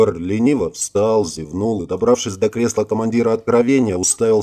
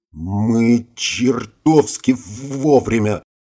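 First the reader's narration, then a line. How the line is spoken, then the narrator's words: Stuttering mumble. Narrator (Russian): заикаясь, пробормотал Оззи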